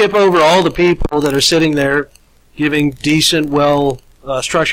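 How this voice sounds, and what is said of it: Usual voice. Nothing is said of it.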